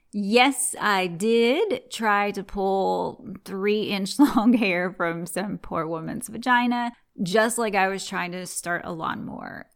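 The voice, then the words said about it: Southern twang. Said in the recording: “are you really Southern? ... Why the hell would I fake this twang? I really was born and raised in the South.”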